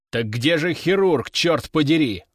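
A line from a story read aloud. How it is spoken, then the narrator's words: Growled. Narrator (Russian): рыкнул Овод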